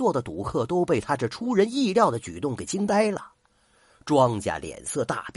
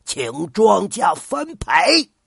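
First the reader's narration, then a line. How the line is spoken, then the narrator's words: Sudden loud shout. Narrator (Chinese): 王叔突然大声喊了一句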